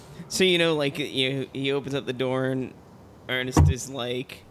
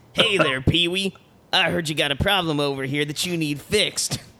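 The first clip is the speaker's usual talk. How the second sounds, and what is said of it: Imitated Ernest character voice. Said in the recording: “Anybody can do an Ernest voice? ... He's like a man of a thousand voices.”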